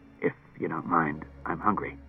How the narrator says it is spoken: Clusar muttered

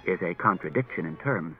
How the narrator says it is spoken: Daniil evenly

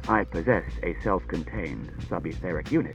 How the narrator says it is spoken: said R

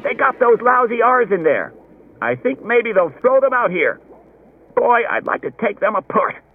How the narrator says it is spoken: Someone else said excitedly

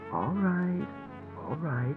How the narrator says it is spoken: said soothingly

